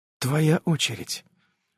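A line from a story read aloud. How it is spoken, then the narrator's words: Seductive drawn-out whisper. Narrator (Russian): прошептала она, соблазнительно растягивая гласные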